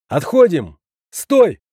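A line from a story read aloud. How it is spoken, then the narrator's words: Hurried shout. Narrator (Russian): успел крикнуть я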